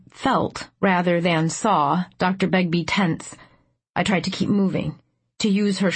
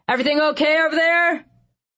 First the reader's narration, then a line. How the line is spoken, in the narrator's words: the voice that yelled